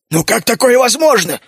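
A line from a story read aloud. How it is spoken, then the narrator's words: Exclaiming. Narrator (Russian): воскликнул Джину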